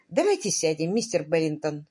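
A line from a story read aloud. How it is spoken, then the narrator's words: Calm. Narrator (Russian): спокойно предложила она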